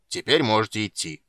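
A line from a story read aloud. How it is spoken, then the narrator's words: Deliberately rough. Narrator (Russian): нарочито грубо сказал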